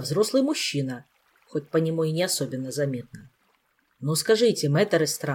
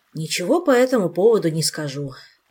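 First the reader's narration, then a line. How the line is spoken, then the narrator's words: Sighing. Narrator (Russian): вздохнул Рельма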